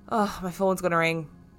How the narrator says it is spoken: sigh and declare

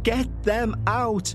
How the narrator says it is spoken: continued to scream

